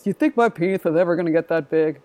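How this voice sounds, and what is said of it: Put-on deep voice. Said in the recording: “And that deep voice,”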